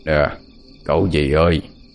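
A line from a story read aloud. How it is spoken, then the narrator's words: Hoarse voice. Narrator (Vietnamese): một giọng nói khàn khàn vang lên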